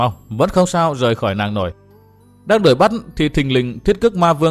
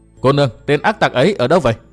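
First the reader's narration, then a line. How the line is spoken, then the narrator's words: Laughing loudly, asking. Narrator (Vietnamese): một lão già, chàng dừng tay cười lớn hỏi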